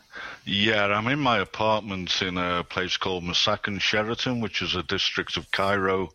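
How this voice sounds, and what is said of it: Northwest English Liverpool accent. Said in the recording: “You've got an accent there that suggests you're from the northwest of England ... I'm originally from Liverpool.”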